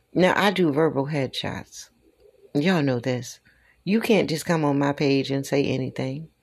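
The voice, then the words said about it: Southern twang. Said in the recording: “That's that little twang they hear, that southern twang”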